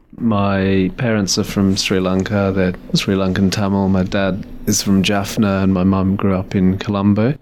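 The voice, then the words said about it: English accent. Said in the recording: “that's why I have an English accent.”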